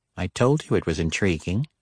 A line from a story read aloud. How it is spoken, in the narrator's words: Denala replied with a soft laugh